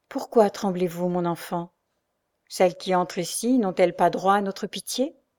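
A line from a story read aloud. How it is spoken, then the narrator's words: Calm, gently compassionate. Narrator (French): elle dit à Marianne, d'une voix calme et empreinte d'une douce compassion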